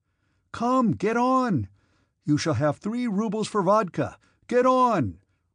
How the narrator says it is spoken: Rostov shouted

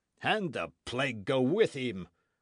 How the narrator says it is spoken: cried Bennet

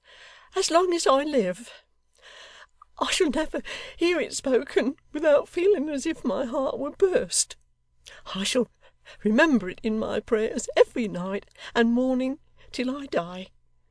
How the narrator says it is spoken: sobbed the locksmith's little daughter

